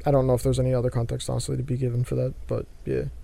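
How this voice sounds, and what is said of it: Voice sounds off, throaty. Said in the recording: “Sorry if I sound weird, by the way. My throat is also ... still”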